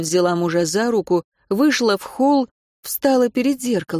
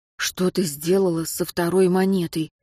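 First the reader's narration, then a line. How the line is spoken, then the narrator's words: Quiet question. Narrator (Russian): тихо спросил Хагал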